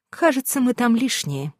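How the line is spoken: Sighing. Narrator (Russian): вздохнула

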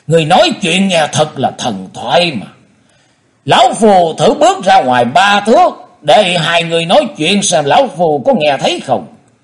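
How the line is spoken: Speaking with loud laughter. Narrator (Vietnamese): Thân Nhất Túy cười lớn hơn nói

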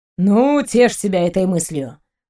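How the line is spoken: Wounded scoff. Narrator (Russian): уязвленно хмыкнул Максим, уже жалея, что сорвался

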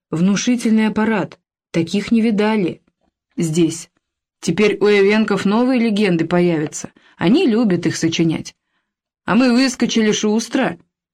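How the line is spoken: Laughing. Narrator (Russian): Мангулов рассмеялся

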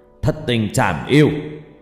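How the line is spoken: Old man shouting. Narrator (Vietnamese): Cụ hét lên

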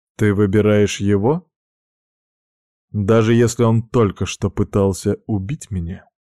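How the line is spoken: Very calm. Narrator (Russian): Сказано это было настолько спокойно

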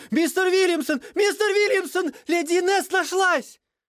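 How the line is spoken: Servant's gasp, house-filling shout. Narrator (Russian): прислуга охнула и закричала на весь дом

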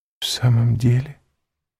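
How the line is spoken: Whispering. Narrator (Russian): прошептала Валентина

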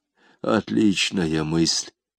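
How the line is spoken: Muttering. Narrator (Russian): пробормотал Изон

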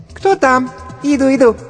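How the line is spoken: Squeaky female voice. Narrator (Russian): пропищал женский голосок

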